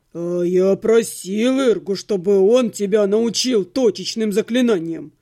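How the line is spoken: Grumbling mutter. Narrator (Russian): пробурчал Отто

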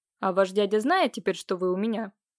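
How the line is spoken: Sudden cold inquiry. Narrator (Russian): холодно осведомился Воронцов

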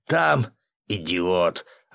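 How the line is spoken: Growled. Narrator (Russian): рыкнул Борис Евгеньевич

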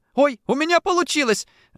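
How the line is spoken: Woman shouting. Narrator (Russian): закричала она

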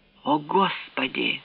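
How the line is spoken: Whisper. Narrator (Russian): прошептал он

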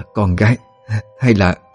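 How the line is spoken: Hesitant stammering woman. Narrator (Vietnamese): Bà ấp úng nói

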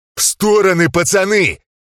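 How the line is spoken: Shouted out. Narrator (Russian): выкрикнул я

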